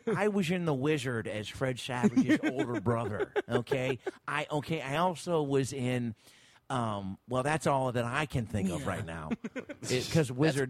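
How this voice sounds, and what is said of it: Christian Slater impression. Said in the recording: “That's pretty good Christian Slater”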